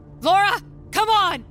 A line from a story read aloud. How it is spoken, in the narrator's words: I yell out into the air, begging for her to get out here